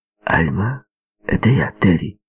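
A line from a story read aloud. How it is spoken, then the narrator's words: Quiet. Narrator (Russian): тихо произнес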